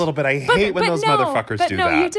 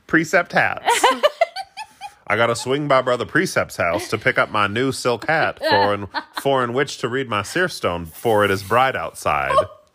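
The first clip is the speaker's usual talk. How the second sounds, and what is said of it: Imitates another person's voice. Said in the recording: “that was my impression of Joseph Smith”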